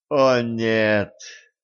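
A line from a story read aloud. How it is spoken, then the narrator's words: Groan. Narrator (Russian): простонала Кэтран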